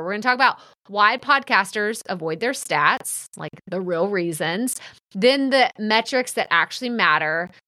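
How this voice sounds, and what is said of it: Texas accent. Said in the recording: “my funny Texas accent that everyone loves to remind me of”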